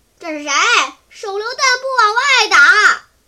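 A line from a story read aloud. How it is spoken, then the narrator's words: Eerie inhuman shout. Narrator (Chinese): 人不是人，鬼不是鬼的声音喊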